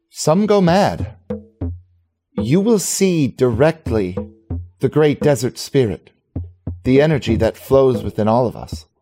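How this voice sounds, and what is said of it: Character voice with unusual accent. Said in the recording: “I'm surprised you're not more curious about my accent ... That doesn't sound like any orc I've ever heard before.”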